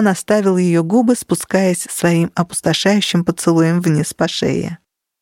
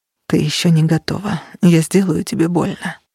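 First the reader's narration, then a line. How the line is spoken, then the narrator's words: Hoarse rasp. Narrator (Russian): прохрипел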